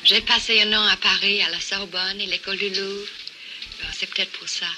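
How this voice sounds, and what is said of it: Elegant foreign accent in French. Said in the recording (French): “elle avait un accent, d'ailleurs très élégant, on peut l'entendre”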